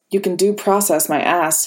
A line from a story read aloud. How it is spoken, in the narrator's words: Happy muttered under his breath